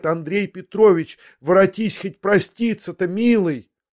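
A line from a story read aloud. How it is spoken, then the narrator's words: Terrified sudden cry. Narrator (Russian): Смертельно испуганная, вдруг закричала ему вслед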